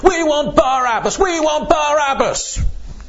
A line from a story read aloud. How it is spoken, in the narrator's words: lots more voices join in the shout